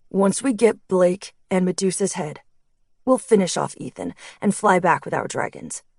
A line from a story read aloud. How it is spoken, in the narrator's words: Chris said, his voice strong and sure